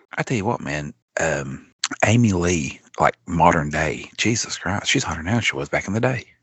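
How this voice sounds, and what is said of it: Whispering. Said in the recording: “Love that we're both whispering ... That's why I'm whispering.”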